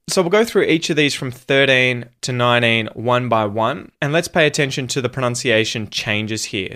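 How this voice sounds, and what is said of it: Australian English accent. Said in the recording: “In an Australian accent, that R isn't going to be pronounced and the T is going to become a T flap”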